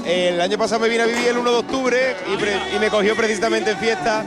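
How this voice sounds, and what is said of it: Andalusian Cádiz accent. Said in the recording (Spanish): “¿Por qué ese acento? ... Yo soy de Cádiz, un pueblo de Cádiz.”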